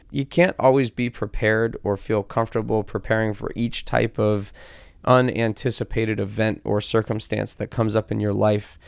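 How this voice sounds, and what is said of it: Hoarse, strained voice from illness. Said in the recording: “my this sickness for me was unexpected. Losing my voice”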